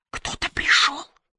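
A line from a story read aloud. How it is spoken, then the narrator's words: Whispered. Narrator (Russian): прошептала она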